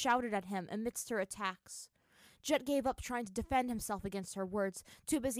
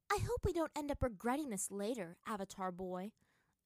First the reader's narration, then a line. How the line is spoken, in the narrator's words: Azula muttered to Aang as they hid in the trees